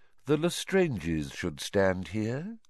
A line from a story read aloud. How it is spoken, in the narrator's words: said Voldemort quietly